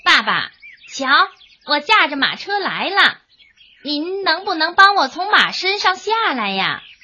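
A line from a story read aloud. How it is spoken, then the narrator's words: Calling out. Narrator (Chinese): 小拇指喊着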